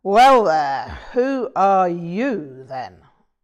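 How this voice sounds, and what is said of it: Big brawny male character voice. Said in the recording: “in a big brawny voice”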